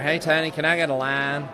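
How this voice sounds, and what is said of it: Put-on North Carolina Southern accent. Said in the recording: “southeast accent? ... Like North Carolina.”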